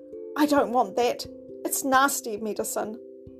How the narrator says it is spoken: was naughty about it

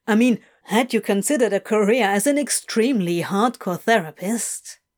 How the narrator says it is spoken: Adam chuckled

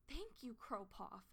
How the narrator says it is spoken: Feathertail gasped

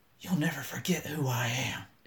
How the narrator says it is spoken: whispered

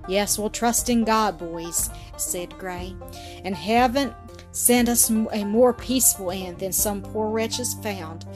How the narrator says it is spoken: added Collins, with a sympathetic sigh

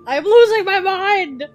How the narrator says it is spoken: I screamed at them and at myself

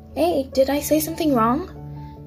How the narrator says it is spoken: Kirishima yelled as you ran

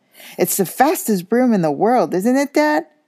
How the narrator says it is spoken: squeaked a boy younger than Harry

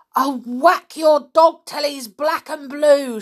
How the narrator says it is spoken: shouted the man

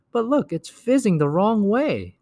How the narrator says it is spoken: Sophie cried

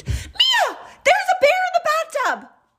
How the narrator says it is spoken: she screamed

